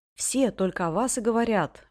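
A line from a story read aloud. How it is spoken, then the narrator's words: Exclaiming. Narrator (Russian): воскликнул он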